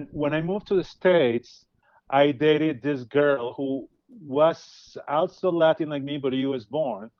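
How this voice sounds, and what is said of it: Latin American accent. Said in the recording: “I have an accent. I'm not from the U.S. I'm from Latin America.”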